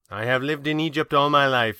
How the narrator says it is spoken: he said

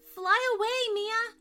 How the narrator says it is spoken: shouted the other fairies

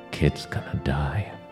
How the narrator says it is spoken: Bonin whispered to Miley

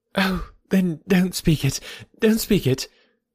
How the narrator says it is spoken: she eagerly cried

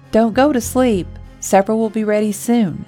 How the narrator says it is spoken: she yelled over her shoulder

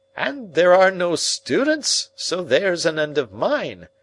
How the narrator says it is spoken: cried Summerlee

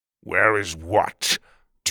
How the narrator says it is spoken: Tuga said through gritted teeth

